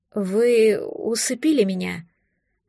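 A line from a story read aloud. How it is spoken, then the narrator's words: Trembling accusation. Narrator (Russian): обвинила я дрогнувшим голосом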